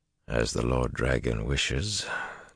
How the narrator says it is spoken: Taim murmured wryly

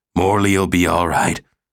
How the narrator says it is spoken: Thug said huskily

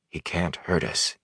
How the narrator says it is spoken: he whispered, and wished he believed it

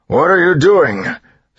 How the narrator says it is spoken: Straff bellowed, fear giving him strength

